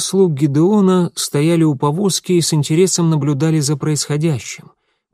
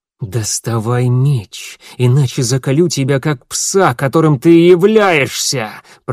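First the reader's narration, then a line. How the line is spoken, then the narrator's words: Hiss. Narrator (Russian): прошипел Гедеон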